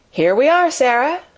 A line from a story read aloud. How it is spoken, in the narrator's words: said Captain Crewe, making his voice sound as cheerful as possible